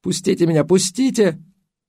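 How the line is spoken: Sobbing cry in sleep. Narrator (Russian): Во сне всхлипывала, один раз выкрикнула

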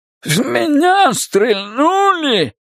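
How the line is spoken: Roaring. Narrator (Russian): проревел тычок

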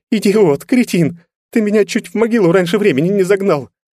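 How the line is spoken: On the verge of tears. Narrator (Russian): Казалось, что еще немного, и Алена по-настоящему разрыдается

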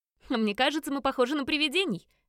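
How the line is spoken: Cheerful snort. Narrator (Russian): весело хмыкнула Фиона

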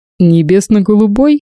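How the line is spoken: Laughing. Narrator (Russian): рассмеялся Владимир

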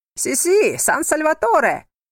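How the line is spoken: Crowd yelling together. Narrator (Russian): вопила разом толпа

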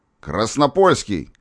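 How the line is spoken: Sudden shout. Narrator (Russian): вдруг крикнул

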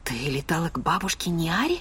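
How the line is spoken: Trailing into a whisper. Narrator (Russian): закончила шепотом

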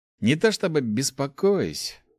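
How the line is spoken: Sighing. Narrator (Russian): вздохнул паладин

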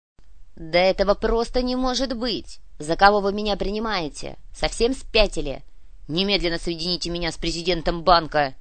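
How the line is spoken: Near-growl into phone. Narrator (Russian): Куприянов разве что не рычал в трубку

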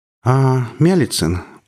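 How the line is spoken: Tired older woman. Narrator (Russian): устало проговорила седая инспекторша в звании майора

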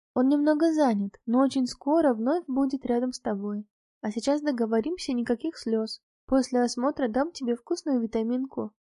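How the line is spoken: Gentle speech. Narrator (Russian): Врач мягко сказала

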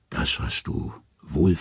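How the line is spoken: Gentle. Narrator (German): sanft sagt sie

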